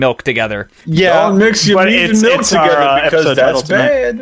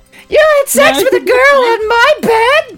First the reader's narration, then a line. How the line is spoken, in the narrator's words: She screamed